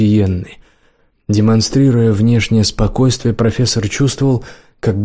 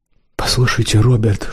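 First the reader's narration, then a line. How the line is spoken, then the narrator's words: Whispering. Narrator (Russian): шепотом обратилась к нему Сиенна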